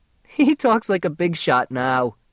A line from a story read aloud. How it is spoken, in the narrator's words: she giggled